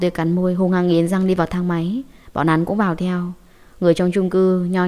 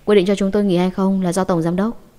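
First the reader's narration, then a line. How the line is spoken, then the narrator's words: Cold. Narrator (Vietnamese): Hứa Mặc lạnh lùng nói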